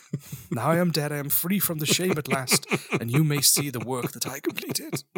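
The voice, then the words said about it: Put-on old man voice. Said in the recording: “is this your old man voice, or is this you after a couple of whiskeys? ... That's your old man voice.”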